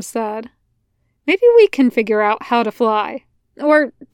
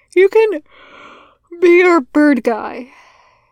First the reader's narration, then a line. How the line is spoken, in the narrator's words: she said, stifling a yawn suddenly